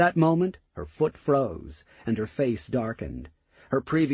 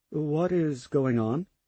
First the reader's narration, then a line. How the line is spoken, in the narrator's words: he asked, his tone cautious